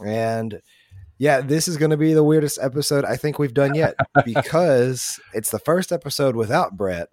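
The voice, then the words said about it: Raspy, ragged voice. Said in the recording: “I know my throat's kind of raspy ... I have this cough problem and that has kind of ran my throat ragged”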